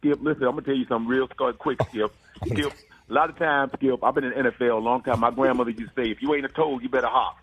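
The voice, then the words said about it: Imitates another person's voice. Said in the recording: “is Steve your best impression right now? ... Well, I got Shannon Sharp.”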